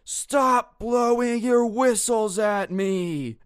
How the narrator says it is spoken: in his best, like, Aslan the Lion roar, just screams

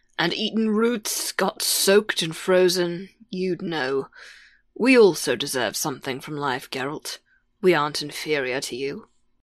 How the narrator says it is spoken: Chappelle muttered back

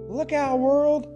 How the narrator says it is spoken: exclaimed the genie

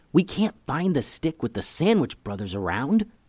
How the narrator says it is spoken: whispered Eli

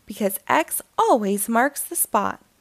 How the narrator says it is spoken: answered Quincy

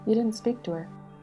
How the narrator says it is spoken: He said in a colorless voice, half as a question, half as a reproach

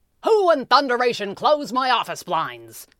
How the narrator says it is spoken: him roar

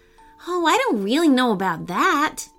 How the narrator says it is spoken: Weston said sadly

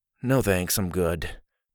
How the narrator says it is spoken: Dillon mumbled

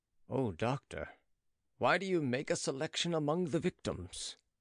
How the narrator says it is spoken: Looking sadly, he said

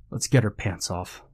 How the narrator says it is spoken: said

